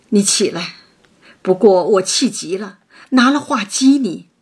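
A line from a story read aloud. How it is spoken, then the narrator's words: Sighing. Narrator (Chinese): 王夫人叹道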